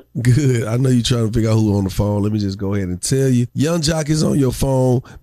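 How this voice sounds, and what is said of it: Slightly hoarse voice. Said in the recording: “My voice is a little hoarse because I've been yelling.”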